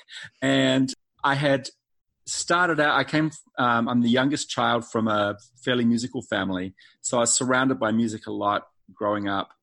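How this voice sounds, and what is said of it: New Zealand accent. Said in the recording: “As you maybe can tell from my accent, not originally from North Carolina. I'm from New Zealand.”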